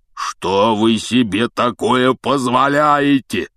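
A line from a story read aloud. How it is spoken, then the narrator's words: Thunderous booming. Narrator (Russian): прогремел он так, что все трое подпрыгнули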